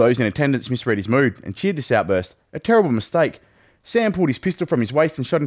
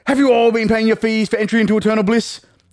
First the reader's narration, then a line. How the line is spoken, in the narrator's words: he screamed at us all